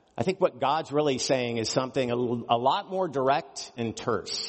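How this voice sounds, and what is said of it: Usual voice. Nothing is said of it.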